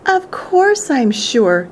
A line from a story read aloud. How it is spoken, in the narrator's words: sputtered the old man excitedly